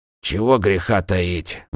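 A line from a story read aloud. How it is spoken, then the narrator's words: Sighing. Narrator (Russian): вздохнул Рудольф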